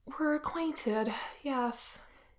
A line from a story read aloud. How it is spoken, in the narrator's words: Wen Qing sighs, and says